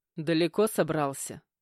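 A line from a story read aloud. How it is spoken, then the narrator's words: Voice from behind. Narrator (Russian): раздалось за спиной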